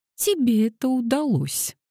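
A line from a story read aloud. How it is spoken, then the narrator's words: Laughing. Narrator (Russian): рассмеялась Дейзи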